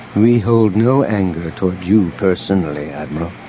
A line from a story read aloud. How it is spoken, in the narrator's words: Elegos said calmly